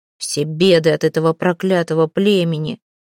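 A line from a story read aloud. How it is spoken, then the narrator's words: Strained calm voice. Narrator (Russian): Она старалась держаться спокойно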